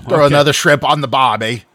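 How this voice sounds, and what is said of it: Poor put-on Australian accent. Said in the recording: “y'all both suck at Australian accents ... neither of you can do an Australian accent”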